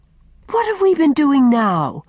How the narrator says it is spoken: cried Faith in amazement

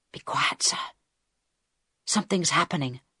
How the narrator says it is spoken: Harold whispered back

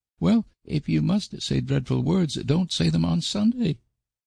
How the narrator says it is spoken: pleaded Dora

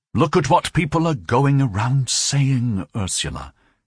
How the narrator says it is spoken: he told his wife very calmly

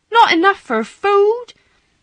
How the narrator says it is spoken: Martha cried aloud

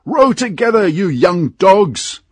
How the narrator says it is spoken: shouted a voice

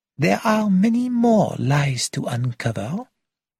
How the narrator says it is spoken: said Poirot cheerfully

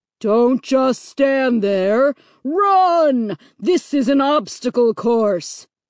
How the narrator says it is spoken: the voice boomed impatiently

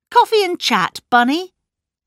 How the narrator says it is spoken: said Miss Blacklock sharply

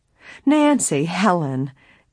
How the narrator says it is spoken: Emily's aunt exclaimed

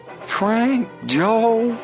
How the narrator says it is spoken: cried Chet, overjoyed

